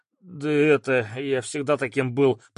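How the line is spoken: Muttered. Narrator (Russian): пробормотал парень

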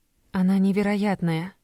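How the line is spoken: Sighed. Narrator (Russian): вздохнула

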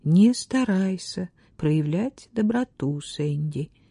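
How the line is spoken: Gentle. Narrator (Russian): мягко отстранила она его

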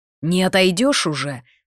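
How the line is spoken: Angry snap. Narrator (Russian): зло огрызнулся маг

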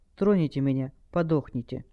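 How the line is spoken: Quiet young woman. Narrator (Russian): девушка тихо проговорила

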